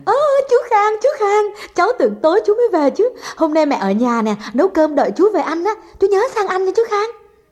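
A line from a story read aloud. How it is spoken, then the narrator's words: Child's joyful cry. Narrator (Vietnamese): Con bé Dung thấy Khang nó reo lên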